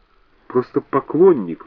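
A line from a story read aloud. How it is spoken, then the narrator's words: Forced out. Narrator (Russian): выдавил он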